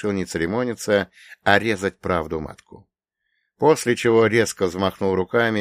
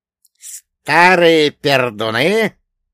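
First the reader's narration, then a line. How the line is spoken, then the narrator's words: Snorting. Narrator (Russian): Вольга Богданович фыркнул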